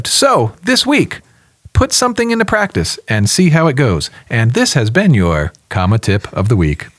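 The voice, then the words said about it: Polished radio announcer voice. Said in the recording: “He almost brought his radio voice there. It was like, it shifted from conversation to ... definitely there ... Doesn't that segment demand my radio voice?”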